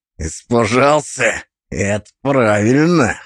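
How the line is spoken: Snort. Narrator (Russian): хмыкнул Глюк

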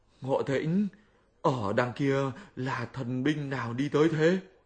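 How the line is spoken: Frightened question. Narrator (Vietnamese): Tam Tạng sợ hãi hỏi Sa Tăng

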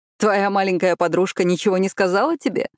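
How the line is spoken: Laughing. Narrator (Russian): рассмеялся

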